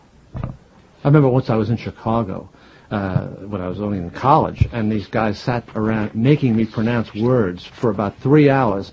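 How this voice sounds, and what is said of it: Northeastern Jersey City accent, dropped R's. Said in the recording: “You still have the northeastern sound to your voice... the Jersey City accent... we don't tend to pronounce our R's as much in New Jersey, particularly in Jersey City and Hudson County”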